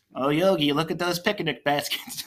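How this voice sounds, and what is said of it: Poor attempt at cartoon character voice. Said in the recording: “I can't even do the voice. ... It sounds like Seth Rogen trying to be Boo Boo.”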